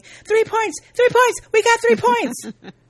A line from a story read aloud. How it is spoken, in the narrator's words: Lindsay is heated and argues with him, yelling